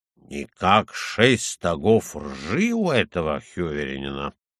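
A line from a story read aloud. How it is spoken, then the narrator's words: Muttering. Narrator (Russian): бормоча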